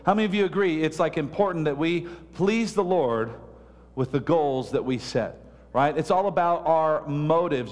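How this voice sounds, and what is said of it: Loud, booming preaching voice. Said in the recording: “I feel like I'm yelling. Am I loud out there?... I feel like I'm booming”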